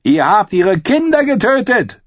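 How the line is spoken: Shouted. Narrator (German): schrie er

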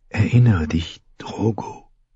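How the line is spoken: Whispered. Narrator (German): flüsterte

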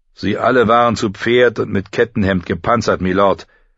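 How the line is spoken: Calm answer. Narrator (German): antwortete ruhig

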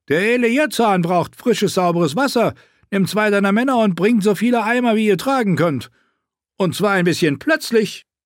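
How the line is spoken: Roaring. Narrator (German): brüllte er

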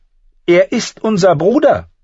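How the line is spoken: Said far too loudly. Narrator (German): sagte Arya viel zu laut

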